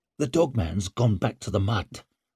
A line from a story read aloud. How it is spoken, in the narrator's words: Leo spoke in an urgent murmur